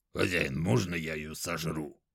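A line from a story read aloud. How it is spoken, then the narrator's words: Dragon's growl. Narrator (Russian): рыкнул дракон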